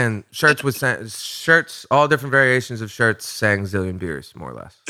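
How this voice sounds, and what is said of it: Usual voice. Nothing is said of it.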